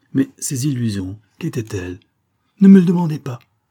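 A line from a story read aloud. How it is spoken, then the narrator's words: Exclaimed. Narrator (French): s'écria-t-il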